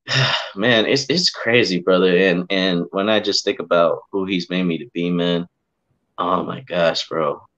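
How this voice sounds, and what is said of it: Emotional, choked-up voice. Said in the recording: “I get emotional when I think about it, bro ... I'm getting emotional right now”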